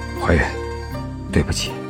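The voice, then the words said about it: Strained, suppressed voice near breaking. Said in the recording (Chinese): “似是在崩溃的边缘的那种压抑的声音说”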